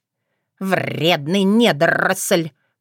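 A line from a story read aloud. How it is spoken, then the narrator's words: Hiss. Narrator (Russian): прошипела она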